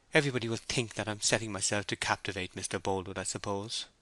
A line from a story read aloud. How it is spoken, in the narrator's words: she murmured